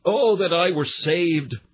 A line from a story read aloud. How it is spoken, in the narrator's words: We cried out